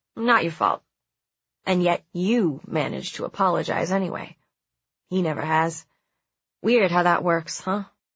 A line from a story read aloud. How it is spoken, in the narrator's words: I said